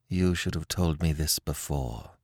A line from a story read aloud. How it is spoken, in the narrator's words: she said, in a dull voice that she strove to render steady